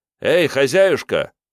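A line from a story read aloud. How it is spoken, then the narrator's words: Called loudly. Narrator (Russian): громко позвал Мун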